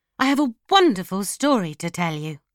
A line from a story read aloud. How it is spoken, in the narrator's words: cried